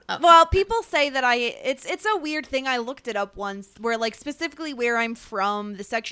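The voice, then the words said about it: Neutral, slightly Midwestern American accent. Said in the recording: “has like almost like a Midwestern accent ... you have a very neutral”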